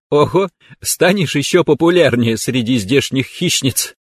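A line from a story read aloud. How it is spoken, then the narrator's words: Giggling. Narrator (Russian): хихикнула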